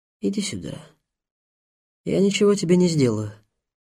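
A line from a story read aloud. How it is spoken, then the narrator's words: Very calm. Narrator (Russian): Очень спокойно произнес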